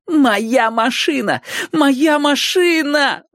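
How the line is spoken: Distant inner pleading. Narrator (Russian): взмолилась бегунья откуда-то с глубоких задворок сознания

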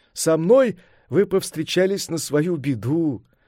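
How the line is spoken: Laughing. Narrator (Russian): смеясь сказал Сунь-Укун

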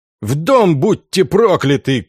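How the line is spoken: Shouting guard captain. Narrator (Russian): кричал капитан стражи

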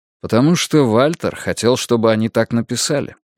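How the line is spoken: Calm remark. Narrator (Russian): спокойно заметил Йона

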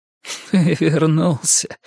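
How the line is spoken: Hoarse laughing woman. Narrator (Russian): хрипло рассмеялась женщина

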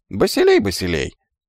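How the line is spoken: Unexpectedly thin singsong voice. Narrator (Russian): неожиданно тоненьким голоском пропел иврит

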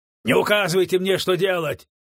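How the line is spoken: Angry snapping. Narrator (Russian): огрызнулся Джессоп, злобно

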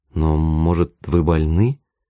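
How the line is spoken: Timid question. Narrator (Russian): спросила Тая робко

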